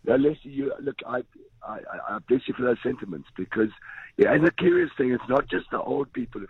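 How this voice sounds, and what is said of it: Hoarse, strained voice. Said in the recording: “Excuse my voice, it's from shouting at them”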